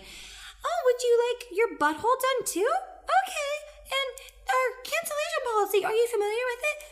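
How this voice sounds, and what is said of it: Put-on customer service voice. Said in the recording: “put on a customer service voice”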